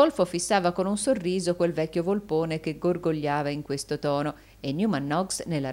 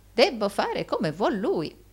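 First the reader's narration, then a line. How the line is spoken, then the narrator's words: Old man's exclamation. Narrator (Italian): esclamò il vecchio Arturo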